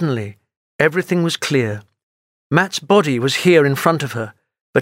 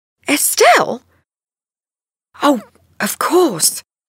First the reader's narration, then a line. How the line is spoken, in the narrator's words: cried Linda